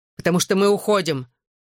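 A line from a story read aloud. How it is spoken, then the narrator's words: Sharp declaration. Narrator (Russian): резко заявил Джоуи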